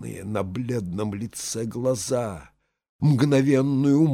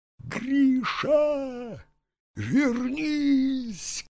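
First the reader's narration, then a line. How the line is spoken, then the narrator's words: Shouted. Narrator (Russian): крикнул Пусторослив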